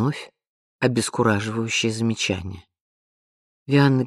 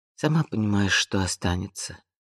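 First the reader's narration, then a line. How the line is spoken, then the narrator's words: Weary. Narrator (Russian): устало проговорила Вианна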